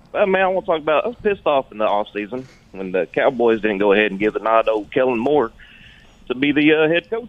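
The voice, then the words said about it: Natural Texas accent. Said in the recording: “in Texas ... that accent is awesome ... it's natural. Just born with it, baby.”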